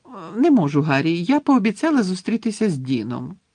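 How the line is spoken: Cheerful reply. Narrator (Ukrainian): весело відповіла Джині

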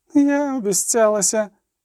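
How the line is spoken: Moaned. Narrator (Ukrainian): простогнала Анголема

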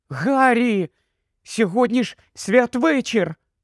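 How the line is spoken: Exclaiming. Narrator (Ukrainian): вигукнула Герміона

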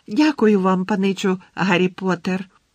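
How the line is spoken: Joyful squeak. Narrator (Ukrainian): радісно пискнув Добі

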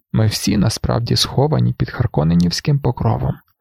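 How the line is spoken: Sigh. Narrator (Ukrainian): зітхнув Юе

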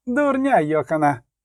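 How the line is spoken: Teary-eyed shout. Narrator (Ukrainian): крикнув Келі, трохи зі сльозами на очах, бо це, власне, втягнув носом дещицю фізштегу

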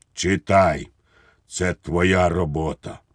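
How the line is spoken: General's tragic voice. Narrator (Ukrainian): генерал сказав трагічним голосом

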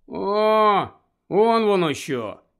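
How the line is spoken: Sigh. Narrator (Ukrainian): зітхнув Рон

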